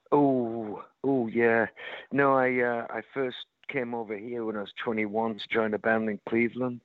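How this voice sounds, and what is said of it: British accent with slight American twang. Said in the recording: “you've got a little bit of a twang there, but you can still hear your Britishness in there ... a little American twang, but you still got that accent”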